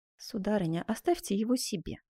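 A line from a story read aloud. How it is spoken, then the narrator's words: Quiet. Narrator (Russian): тихо ответил Карл V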